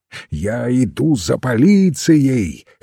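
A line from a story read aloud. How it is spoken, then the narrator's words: Hoarse shout. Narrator (Russian): хрипло выкрикнул он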